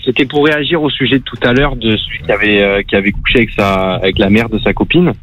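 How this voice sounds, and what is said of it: Marseille French accent. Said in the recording (French): “C'est ... de Marseille ... c'est le même accent”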